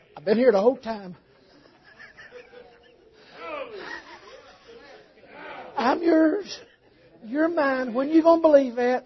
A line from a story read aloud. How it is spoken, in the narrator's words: whisper to your troubled soul